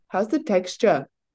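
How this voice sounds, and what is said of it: Impressive put-on South African accent. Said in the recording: “a great accent is? South African accent. ... Oh, impressive.”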